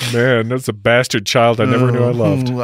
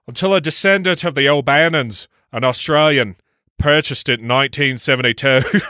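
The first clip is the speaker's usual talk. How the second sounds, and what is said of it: Put-on Australian-Irish accent. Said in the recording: “in your best Australian, by the way, of Ireland accent ... Australian Ireland, Australian Irish accent ... Perfection.”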